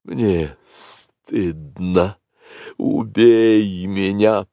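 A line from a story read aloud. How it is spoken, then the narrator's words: Hissing cobra. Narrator (Russian): прошипела белая кобра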